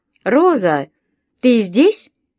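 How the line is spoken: Shouting in Spanish. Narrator (Russian): крикнула на испанском

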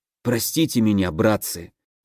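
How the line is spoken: Tearful whisper. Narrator (Russian): Прошептал я и, чувствуя, как по щекам катятся слезы

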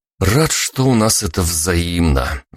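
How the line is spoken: Sigh. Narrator (Russian): вздохнул

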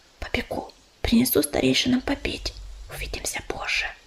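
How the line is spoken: Whisper. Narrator (Russian): Белка прошептала

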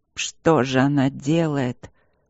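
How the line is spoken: Moaning. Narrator (Russian): простонал один из магов

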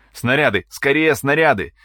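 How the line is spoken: Loud pleading request. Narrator (Russian): громко, с мольбой в голосе попросил артиллерист Коля

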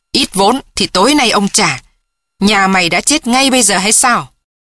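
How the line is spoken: Angry shout. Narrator (Vietnamese): Hắn quát lên

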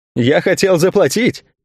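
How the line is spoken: Laughing reply. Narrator (Russian): смеясь, ответил тот

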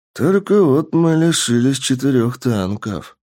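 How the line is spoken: Lord sighing sorrowfully. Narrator (Russian): горестно вздохнул лорд

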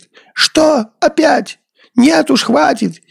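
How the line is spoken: Sudden shout. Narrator (Russian): вдруг как закричит

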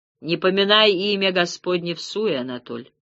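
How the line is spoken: Wry grunt, almost no accent. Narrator (Russian): хмыкнул Губерт, говоривший на русском практически без акцента

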